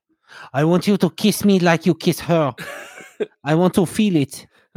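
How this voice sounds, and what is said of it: Put-on French accent. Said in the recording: “Good French accent there”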